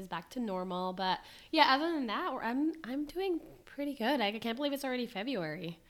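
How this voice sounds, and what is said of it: Hoarse, raspy voice. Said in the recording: “me sounding like a horse ... Hopefully by the time you guys listen to this, my voice is”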